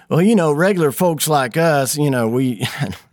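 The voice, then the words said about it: Put-on Texas accent. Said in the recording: “I don't know why I'm doing a Texas accent.”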